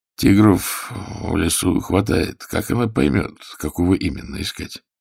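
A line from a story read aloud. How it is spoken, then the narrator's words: Quiet inquiry. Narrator (Russian): тихонько осведомился Загорский у Прокунина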